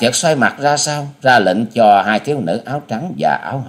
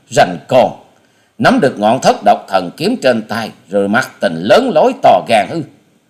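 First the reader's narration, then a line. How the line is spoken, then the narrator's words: Sneering scoff. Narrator (Vietnamese): Hà Xà tiên tử nhếch môi cười khẩy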